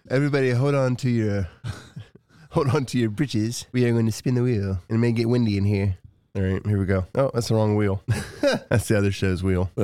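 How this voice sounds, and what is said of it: Put-on accent. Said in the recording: “if you're going to use that kind of accent”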